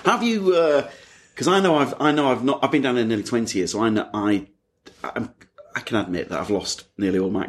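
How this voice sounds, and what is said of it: Leeds accent, Northern English. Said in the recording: “My accent's probably gone a bit stronger because I'm talking to you, which my wife flags that I do when I'm back in Leeds”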